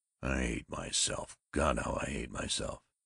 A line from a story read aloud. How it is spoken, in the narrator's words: As it came relentlessly back to him, he snarled